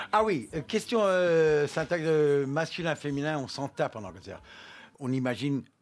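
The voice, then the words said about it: French with an English accent. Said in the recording (French): “vous avez à peu près le même accent que Jane Birkin ... vous avez un peu moins d'accent que Jane Birkin”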